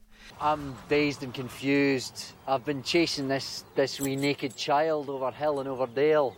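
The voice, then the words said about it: Natural Scottish accent, David Tennant. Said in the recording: “they wound up in Scotland, so David Tennant gets to use his actual accent as opposed to Dick Van Dyking it all up the place”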